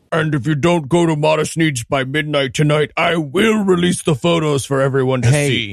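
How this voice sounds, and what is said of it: Put-on blackmail voice. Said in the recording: “you're doing your blackmail voice again ... definitely blackmail voice”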